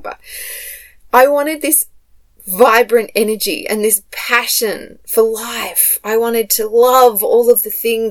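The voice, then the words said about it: Emotional, excited voice. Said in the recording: “Oh, I'm getting so excited... Oh, I'm getting emotional”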